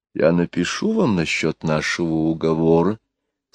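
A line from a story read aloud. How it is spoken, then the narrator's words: In an undertone. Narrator (Russian): сказала она вполголоса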